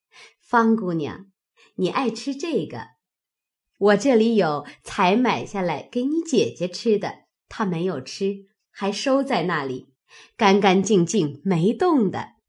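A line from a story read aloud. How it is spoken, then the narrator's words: Hurried, laughing. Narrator (Chinese): 柳家的忙笑道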